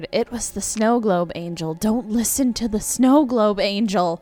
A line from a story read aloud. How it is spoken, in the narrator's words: She occasionally whispered